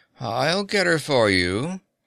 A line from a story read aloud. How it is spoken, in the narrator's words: A young woman in the front rank drawled over her powder-sprayed shoulder